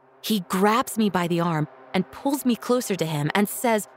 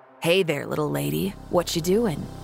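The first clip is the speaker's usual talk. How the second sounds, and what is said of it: Creepy voice. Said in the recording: “with this creepy voice and smile”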